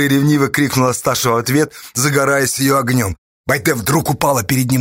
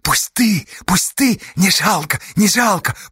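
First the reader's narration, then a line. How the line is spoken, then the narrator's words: Whisper. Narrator (Russian): прошептала она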